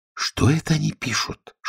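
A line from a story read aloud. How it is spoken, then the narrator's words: Whispered question. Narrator (Russian): шепотом спросила Алиса у Грифона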